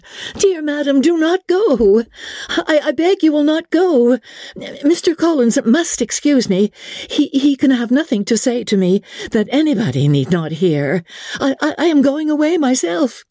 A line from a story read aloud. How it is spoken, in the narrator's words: Elizabeth called out